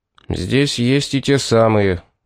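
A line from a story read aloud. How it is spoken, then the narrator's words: Gloomy. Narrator (Russian): сказал он мрачно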